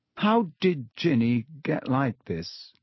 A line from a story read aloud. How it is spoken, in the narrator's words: He asked slowly